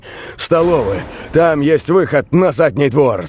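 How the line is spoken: Shout. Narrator (Russian): закричал Роберт

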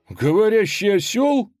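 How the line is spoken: Exclaiming in chorus. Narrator (Russian): хором воскликнули богатыри

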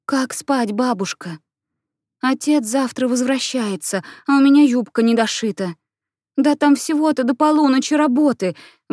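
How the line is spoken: Pleading. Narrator (Russian): взмолилась Анна

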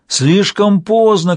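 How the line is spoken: Shouting. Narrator (Russian): кричал белый

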